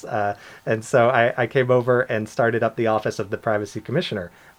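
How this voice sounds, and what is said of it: American accent. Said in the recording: “my accent has probably given me away at this point. I'm not from Bermuda originally. I am from the U.S.”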